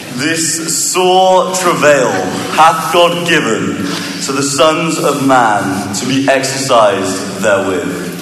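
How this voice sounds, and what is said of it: British English accent. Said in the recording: “British ... English”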